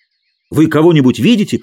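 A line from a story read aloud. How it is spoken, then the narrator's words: Shouted. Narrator (Russian): крикнул Хэтч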